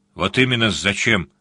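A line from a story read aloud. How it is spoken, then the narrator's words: Grumbled. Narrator (Russian): пробурчал сварог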